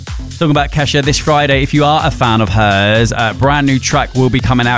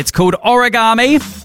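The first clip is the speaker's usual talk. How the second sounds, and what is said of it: Briefly sounds a bit Australian. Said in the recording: “sounded a bit Australian”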